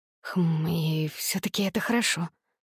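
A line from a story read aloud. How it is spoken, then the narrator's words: Sleepy female mumble. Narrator (Russian): сонно пробормотала я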